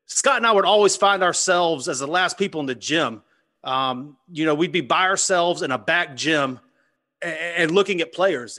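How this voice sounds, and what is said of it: Southern American accent. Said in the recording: “this Southern accent”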